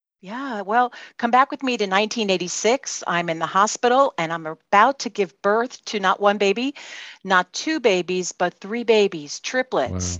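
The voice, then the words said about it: Brooklyn New York accent. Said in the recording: “you can tell from my accent that I'm from Brooklyn, New York.”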